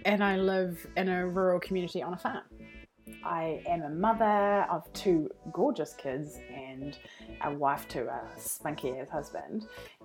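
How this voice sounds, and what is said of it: New Zealand accent. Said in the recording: “I'm actually from New Zealand, so that's what my accent is.”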